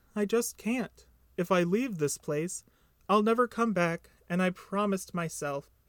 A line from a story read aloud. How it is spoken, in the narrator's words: sighed deeply